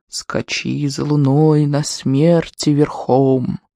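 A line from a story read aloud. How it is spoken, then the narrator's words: Spooky sepulchral voice. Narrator (Russian): Бриско, решив напугать брата, проговорил загробным голосом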